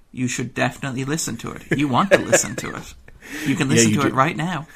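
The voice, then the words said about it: Pushy salesman-like persuasive voice. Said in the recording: “I'm going to do my pusher voice here.”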